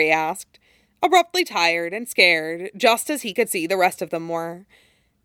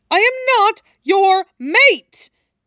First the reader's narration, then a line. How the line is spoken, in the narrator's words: Draco shouted, and then paused, panting